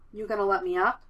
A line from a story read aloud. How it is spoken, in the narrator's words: he asks